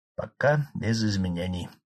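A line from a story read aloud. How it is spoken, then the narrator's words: Businesslike calm doctor. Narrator (Russian): деловито и спокойно отвечал главный медик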